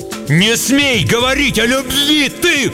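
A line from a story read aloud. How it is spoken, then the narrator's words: Shouted. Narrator (Russian): крикнул Шут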